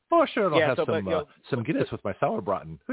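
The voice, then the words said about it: Put-on Irish-German accent. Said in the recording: “you speak with an Irish-German accent.”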